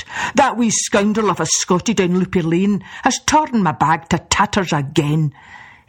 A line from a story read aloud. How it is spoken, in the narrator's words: he grumbled